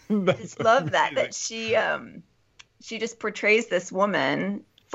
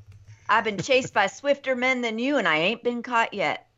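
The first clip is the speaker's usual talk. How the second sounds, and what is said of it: Put-on Southern drawl. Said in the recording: “All of a sudden, I'm developing a drawl.”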